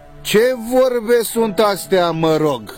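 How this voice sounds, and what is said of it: Raised, irritated, slow emphatic voice. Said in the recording (Romanian): “vocea bunicului se ridică puțintel întărâtată cu accent rar și îndesat”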